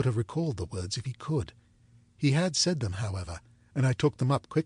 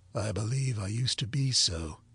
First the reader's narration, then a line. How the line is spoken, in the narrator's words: he rejoined, in the low voice in which he had first spoken